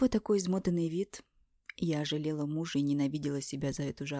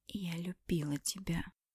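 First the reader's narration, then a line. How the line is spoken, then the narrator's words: Sudden hoarse whisper. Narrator (Russian): прошептала я внезапно севшим голосом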